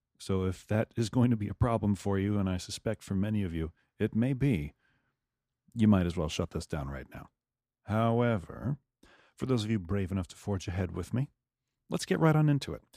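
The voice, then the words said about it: Radio announcer voice. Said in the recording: “my radio voice”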